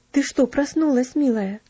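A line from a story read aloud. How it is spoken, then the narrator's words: Old nanny's exclamation. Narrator (Russian): воскликнула старенькая няня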